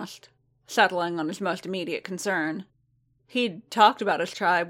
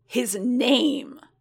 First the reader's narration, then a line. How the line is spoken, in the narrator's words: Boba snarled, with so much venom in his voice